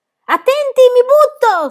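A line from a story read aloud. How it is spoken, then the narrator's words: Shrieked. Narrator (Italian): strillò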